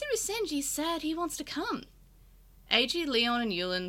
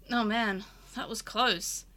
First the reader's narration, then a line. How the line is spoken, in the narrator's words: AG said with a heavy sigh